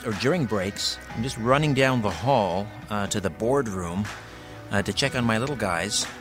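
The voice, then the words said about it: Out of breath. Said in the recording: “I'm a little out of breath.”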